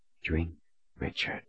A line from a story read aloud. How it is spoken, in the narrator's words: she urged in a whisper